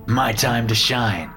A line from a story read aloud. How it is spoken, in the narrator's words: she said, laughing